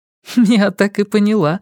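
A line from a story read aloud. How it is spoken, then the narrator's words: Laughing female voice. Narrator (Russian): рассмеялась Сага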